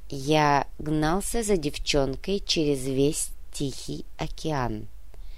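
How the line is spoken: Calm. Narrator (Russian): спокойно произнес Тори

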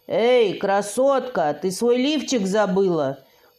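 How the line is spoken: Mocking shout. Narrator (Russian): крикнул кто-то из преследователей

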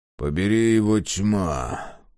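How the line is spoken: Grumbling. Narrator (Russian): проворчал он

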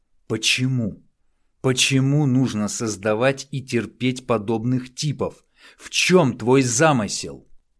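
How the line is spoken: Loud question. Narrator (Russian): громко спросил

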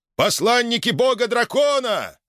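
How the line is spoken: Shouting. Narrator (Russian): заорал один из бойцов

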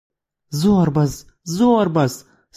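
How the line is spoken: Pleading. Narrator (Russian): снова взмолилась мадам

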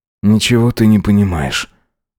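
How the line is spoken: Mutter. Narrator (Russian): буркнул

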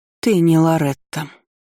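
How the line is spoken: Trembling statement. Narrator (Russian): констатировала она дрожащим голосом

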